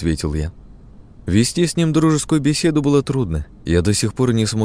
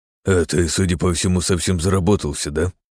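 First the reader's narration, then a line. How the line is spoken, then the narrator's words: Amused snort. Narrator (Russian): хмыкнул он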